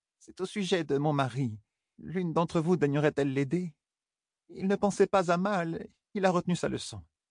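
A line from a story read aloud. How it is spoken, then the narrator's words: Stammering. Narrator (French): balbutia Amélia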